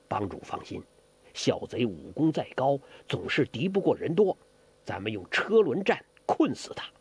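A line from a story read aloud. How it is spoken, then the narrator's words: Low voice. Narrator (Chinese): 简长老低声说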